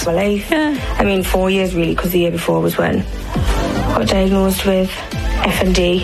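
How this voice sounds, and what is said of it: Speaks with an unusual foreign-sounding accent. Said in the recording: “my accent is changed ... it's not the same accent that she had ... a new unintended speech pattern that listeners perceive as a foreign accent”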